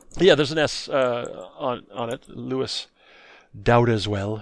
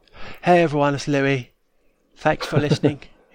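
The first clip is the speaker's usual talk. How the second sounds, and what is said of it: Imitates another person's accented voice. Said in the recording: “He's got that accent there.”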